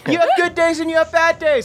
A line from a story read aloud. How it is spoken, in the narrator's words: I scream